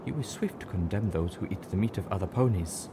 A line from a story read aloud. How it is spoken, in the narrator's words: she said softly